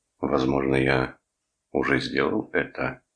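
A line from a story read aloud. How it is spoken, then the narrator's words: Calm reply. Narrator (Russian): спокойно ответил Торн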